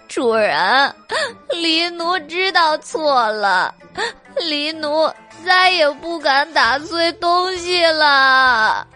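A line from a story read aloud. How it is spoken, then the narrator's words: Trembling, crying. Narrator (Chinese): 黑猫在夜风中瑟瑟发抖，哭道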